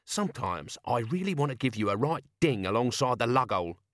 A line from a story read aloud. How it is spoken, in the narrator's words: she growled